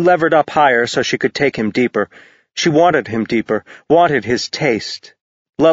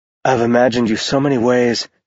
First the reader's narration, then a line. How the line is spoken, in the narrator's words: Ash said in a strained voice